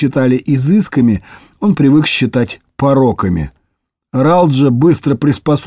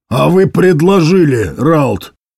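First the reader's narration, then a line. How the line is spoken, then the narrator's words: Barked. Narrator (Russian): рявкнул генерал полиции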